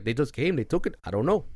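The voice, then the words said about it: Wild mixed foreign accent. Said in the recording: “That was a wild accent ... Dude was French, Spanish, and a fucking Arab or something.”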